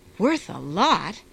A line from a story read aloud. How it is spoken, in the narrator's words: exclaimed